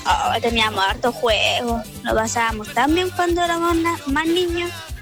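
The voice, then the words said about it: Little girl's voice. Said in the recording (Spanish): “voz de niñita”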